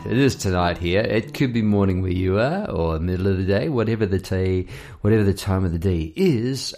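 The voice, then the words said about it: Unusually deep, low voice. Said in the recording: “I've got a very deep voice tonight ... My voice is down there. I've just been having a couple of late nights”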